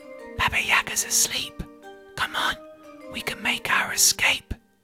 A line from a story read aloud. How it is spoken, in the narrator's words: tiptoed, whispered